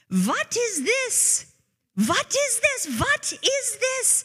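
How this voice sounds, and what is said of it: Old woman's thick German accent, yelling. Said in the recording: “this little old lady's voice in a very thick German accent yelling”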